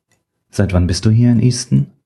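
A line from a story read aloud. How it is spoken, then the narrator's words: Gentle question. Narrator (German): fragte er so sanft wie möglich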